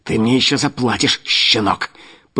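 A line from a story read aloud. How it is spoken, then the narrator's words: Menacing hiss. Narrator (Russian): прошипел Луканов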